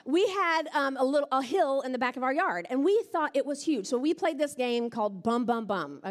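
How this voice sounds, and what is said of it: Alabama Southern accent. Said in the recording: “back in Alabama, that's where I'm from. If you can't tell the accent, still there.”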